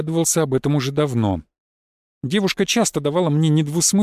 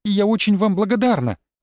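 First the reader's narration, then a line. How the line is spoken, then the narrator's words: Exclaimed. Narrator (Russian): воскликнула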